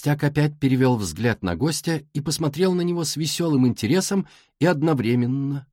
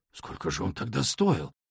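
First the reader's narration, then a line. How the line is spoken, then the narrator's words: Hoarse, strained voice. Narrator (Russian): спросил мистер Стивенс хриплым, сдавленным голосом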